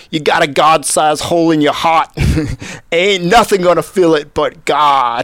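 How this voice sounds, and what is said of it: Imitated New York accent. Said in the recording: “he's New York accent, so I'm going to try to imitate the New York accent,”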